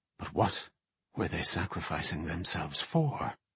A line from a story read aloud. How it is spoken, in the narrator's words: murmured to herself